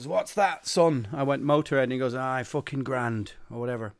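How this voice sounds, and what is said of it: Put-on Yorkshire accent. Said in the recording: “I don't know how I've sort of lapsed into some sort of Yorkshire accent there”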